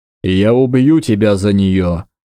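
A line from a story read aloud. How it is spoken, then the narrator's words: Growled. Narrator (Russian): прорычал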